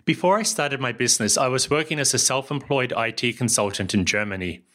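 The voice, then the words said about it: New Zealand accent. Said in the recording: “as you can tell from my accent, I come from somewhere else. That's New Zealand”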